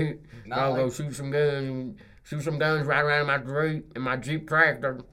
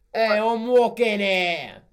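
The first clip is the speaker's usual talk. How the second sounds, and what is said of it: Put-on New York accent. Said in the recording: “I'm sorry for anyone from New York. I'm going to mess this up.”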